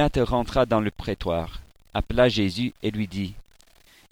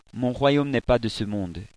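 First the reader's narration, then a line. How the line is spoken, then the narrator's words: Plain answer. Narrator (French): répondit Jésus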